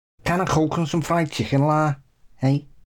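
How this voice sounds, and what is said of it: Put-on Scouse accent, throaty. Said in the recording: “how to do a Scouse accent ... You just got to close your throat a bit ... You got to talk from the throat ... pretend you're from Merseyside”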